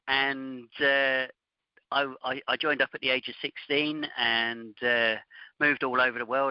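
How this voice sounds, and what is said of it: Strong British accent. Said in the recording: “in the UK Air Force, as you can probably tell from my outrageous accent”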